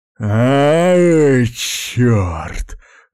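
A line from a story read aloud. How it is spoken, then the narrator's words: Gasp. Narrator (Russian): выдохнул Фугуджи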